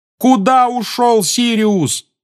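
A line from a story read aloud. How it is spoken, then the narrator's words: Yelling after someone. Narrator (Russian): завопил Гарри ему вслед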